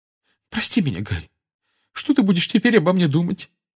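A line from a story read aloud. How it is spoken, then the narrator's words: Trembling voice. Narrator (Russian): дрожащим голосом проговорила она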